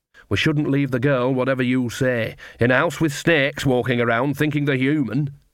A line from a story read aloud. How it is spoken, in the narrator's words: said